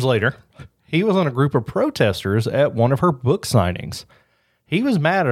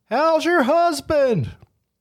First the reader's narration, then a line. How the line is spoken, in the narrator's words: Clay shouted out loud